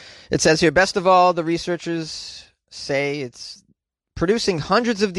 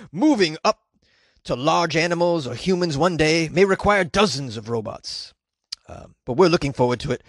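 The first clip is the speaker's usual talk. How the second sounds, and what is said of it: Guttural impression of a professor. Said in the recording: “that impression. It was very guttural”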